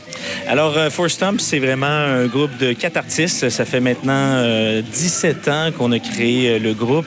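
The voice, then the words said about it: Québécois French accent. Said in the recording (French): “Nous, on est dépaysés avec votre accent et personnellement, je suis fan.”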